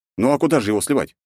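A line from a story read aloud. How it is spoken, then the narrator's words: Snorting. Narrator (Russian): хмыкнул я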